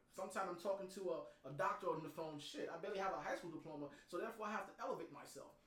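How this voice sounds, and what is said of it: Thick accent. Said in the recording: “my accent is thick”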